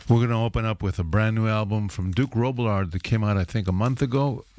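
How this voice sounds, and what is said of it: Voice a little bit lower, head cold. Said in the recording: “you may hear that my voice is a little bit lower. I've caught a bit of a head cold”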